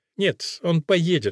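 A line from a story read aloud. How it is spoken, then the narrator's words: Calm. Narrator (Russian): спокойно сказал Макниль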